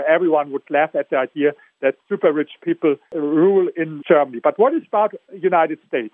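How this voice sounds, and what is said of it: German accent. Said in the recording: “I come from Germany, as you hear with my accent”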